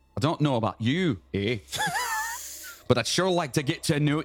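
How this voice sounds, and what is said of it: Put-on Scottish accent. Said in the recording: “No, that's Scottish. ... That's Scottish, yeah.”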